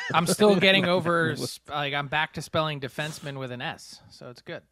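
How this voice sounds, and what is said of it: Philadelphia accent. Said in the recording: “your beautiful Philadelphia accent”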